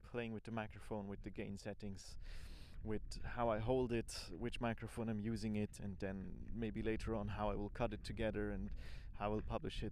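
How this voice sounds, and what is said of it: Swiss accent in English. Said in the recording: “the terrible Swiss accent in my English”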